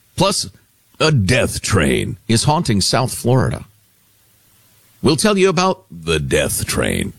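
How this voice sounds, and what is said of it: Scary dramatic voice. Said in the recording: “when you use that voice, it sounds very scary... It's a scary voice.”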